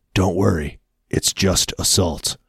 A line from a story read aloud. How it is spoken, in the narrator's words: he whispers